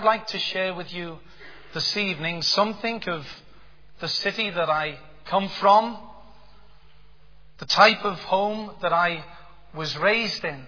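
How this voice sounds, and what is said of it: Liverpool accent. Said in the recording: “my accent gives it away... I'm born and bred in the city of Liverpool”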